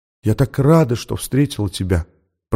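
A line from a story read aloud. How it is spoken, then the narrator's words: Whisper. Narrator (Russian): прошептала она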